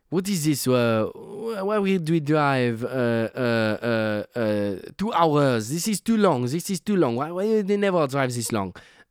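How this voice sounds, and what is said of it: Put-on French accent. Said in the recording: “I'll do a French person ... I don't know if that's my French”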